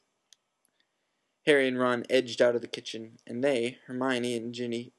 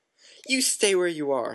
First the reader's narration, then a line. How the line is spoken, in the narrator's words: snarled Mrs